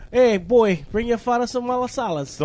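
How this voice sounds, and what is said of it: Put-on Italian-sounding accent. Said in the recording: “You sounded Italian. ... You sound like you just moved here.”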